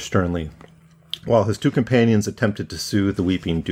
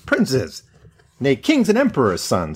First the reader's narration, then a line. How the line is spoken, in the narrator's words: exclaimed the dwarf